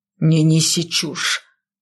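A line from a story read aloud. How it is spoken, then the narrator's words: Growling. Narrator (Russian): зарычал он Гер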